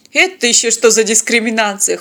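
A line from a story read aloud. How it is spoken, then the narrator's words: Chuckling. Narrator (Russian): хохотнул пилот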